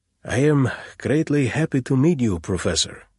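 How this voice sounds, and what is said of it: Throaty Slavic accent, long gliding vowels. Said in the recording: “throaty and Slavic, with long, broad, gliding vowels”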